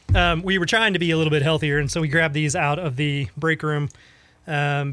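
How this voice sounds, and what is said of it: Scratchy, fading voice. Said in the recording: “losing my voice, as you can hear. It's it's a little scratchy”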